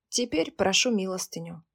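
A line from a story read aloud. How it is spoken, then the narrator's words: Very calm reply. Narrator (Russian): очень спокойно отвечала Мария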